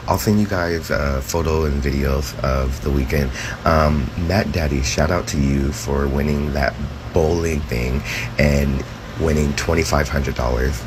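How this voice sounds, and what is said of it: Hoarse, nearly lost voice. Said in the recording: “I totally lost my voice at Folsom yesterday”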